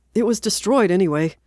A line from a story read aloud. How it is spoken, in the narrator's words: Steve said desperately